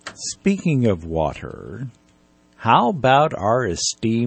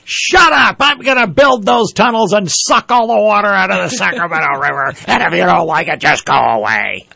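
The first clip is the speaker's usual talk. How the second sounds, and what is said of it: Imitates another person's voice. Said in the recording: “Good impression.”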